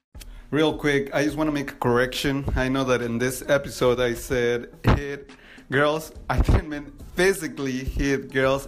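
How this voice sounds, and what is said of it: Non-native English accent. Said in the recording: “sometimes my accent, English is my second language”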